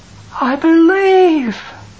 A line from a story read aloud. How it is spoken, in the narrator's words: cried